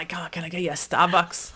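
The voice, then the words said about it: Put-on Scottish accent. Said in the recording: “That was a Scottish accent.”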